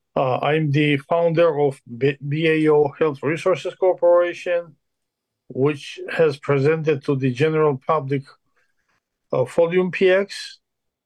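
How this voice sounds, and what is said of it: Very heavy foreign accent. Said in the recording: “I speak with a very heavy accent”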